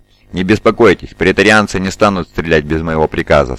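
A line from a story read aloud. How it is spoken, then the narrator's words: Plain. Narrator (Russian): сказала Зетта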